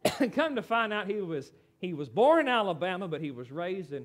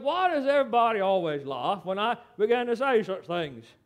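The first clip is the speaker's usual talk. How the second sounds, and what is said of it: Poor imitation Australian accent. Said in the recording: “forgive my horrible Australian accent”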